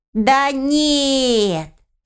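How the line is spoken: Drawling. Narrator (Russian): протянул арсис

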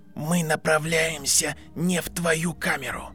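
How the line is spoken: Automatic hiss. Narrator (Russian): прошипел Гарри автоматически

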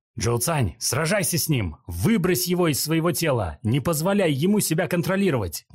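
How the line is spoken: Shouted. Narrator (Russian): крикнул Джунянь

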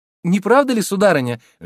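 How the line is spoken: Lively exclamation. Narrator (Russian): живо воскликнула Роза

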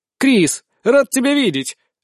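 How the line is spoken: Exclaiming. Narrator (Russian): воскликнул

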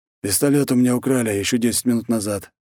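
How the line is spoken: Sighing again. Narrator (Russian): опять вздохнул он

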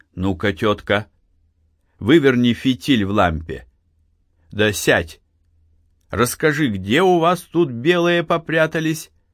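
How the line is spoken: Commanding voice. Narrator (Russian): властным голосом проговорил Архип

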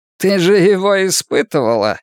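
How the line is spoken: Exclamation. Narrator (Russian): воскликнул Шпиндель

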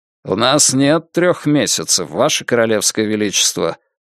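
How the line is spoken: Dry, curt. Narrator (Russian): сухо произнес первый лорд Адмиралтейства граф Селборн

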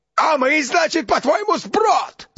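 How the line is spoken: Yelling. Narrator (Russian): завопил Гаунд

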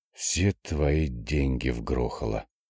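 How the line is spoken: Hissing. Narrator (Russian): прошипела Вика

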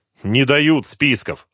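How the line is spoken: Angry. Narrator (Russian): зло ответил Корниенко

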